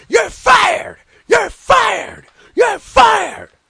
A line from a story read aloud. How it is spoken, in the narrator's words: Paulie dangerously is screaming on the outside